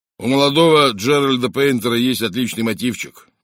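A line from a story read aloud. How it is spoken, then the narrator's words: Gloomy remark. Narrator (Russian): мрачно заметил Джеб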